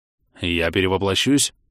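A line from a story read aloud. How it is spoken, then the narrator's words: Growled. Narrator (Russian): рыкнул Зарон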